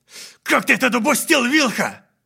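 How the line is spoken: Shouted. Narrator (Russian): прокричал Оли

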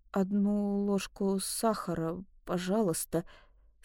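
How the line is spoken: Hoarse voice. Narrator (Russian): сказала я хриплым голосом

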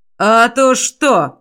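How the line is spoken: Growled. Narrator (Russian): прорычал он

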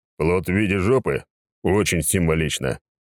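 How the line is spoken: Short laugh. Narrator (Russian): хохотнул я

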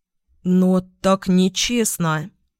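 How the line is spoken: Hesitant voice. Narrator (Russian): Неуверенно подал голос конопатый Отда, приятель Карпета

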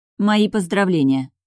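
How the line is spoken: Dry. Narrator (Russian): сухо сказала я

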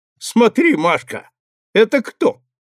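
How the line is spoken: Laughing. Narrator (Russian): захохотал, потом сказал

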